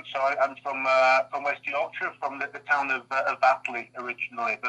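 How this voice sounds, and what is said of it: Strong West Yorkshire accent. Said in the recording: “UK listeners may have already picked up on my accent ... my accent is still there, still strong, still going.”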